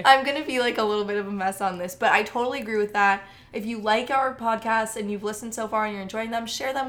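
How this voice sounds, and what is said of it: Smoky, croaky congested voice. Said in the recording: “with a cold... I sound kind of sexy, kind of smoky... My voice is going to like croak out halfway through this”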